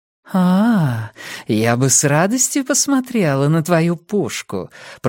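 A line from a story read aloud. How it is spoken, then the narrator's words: Cooing. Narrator (Russian): проворковала Нина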